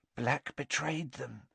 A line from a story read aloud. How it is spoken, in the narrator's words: breathed Madame Rosmerta